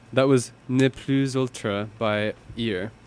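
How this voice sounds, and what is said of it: Half-hearted French accent. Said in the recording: “I kind of half committed on the French accent.”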